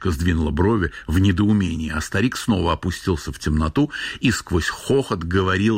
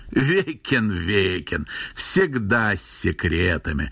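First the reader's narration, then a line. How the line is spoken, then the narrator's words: Old man guffawing. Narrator (Russian): захохотал старик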